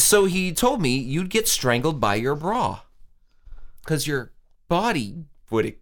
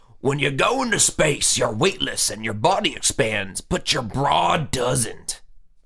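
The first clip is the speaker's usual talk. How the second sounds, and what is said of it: Imitates another person's voice. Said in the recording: “That was my George Lucas impression.”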